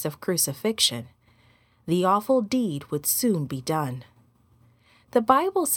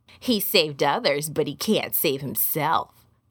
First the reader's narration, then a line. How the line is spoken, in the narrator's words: sneered